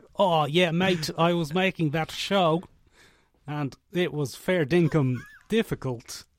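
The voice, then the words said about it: Put-on Australian or Kiwi accent. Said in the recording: “We attempt to do either an Australian or a Kiwi accent”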